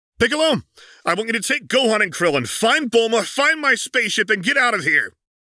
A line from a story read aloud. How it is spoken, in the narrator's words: Goku yelled, trying to be heard over the roars of the battle overhead